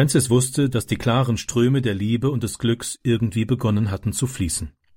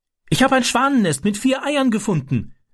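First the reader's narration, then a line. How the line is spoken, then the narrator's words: Calling out. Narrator (German): rief er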